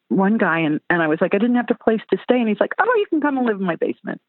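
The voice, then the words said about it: American southern accent. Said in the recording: “your accent takes me back ... especially the southern accent”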